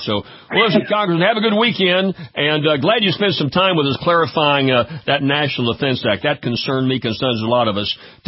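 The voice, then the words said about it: Southern North Louisiana accent. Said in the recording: “I got kind of a redneck accent from North Louisiana”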